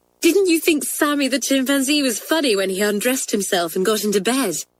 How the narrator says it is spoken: asked Kathleen eagerly

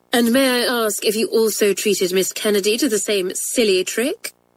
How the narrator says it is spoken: asked Miss Roberts in her most sarcastic voice

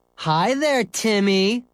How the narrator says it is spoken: yelled

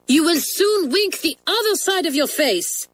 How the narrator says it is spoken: cried Mademoiselle, getting all mixed up

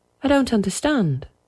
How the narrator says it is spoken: said Peter

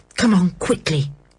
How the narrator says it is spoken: said Dick in a low voice

